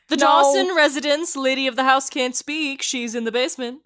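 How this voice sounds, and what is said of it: Funny put-on voice. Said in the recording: “answer the phone in a funny voice”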